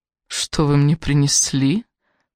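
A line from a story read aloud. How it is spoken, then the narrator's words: Deep purring voice. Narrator (Russian): промурлыкала Сара глубоким грудным голосом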